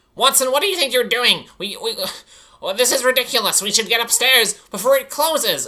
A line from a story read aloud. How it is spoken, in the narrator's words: Arch blurts out